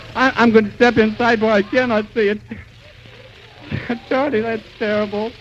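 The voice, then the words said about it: Choked, breathless voice giving out. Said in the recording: “I can hardly breathe ... I've lost my voice”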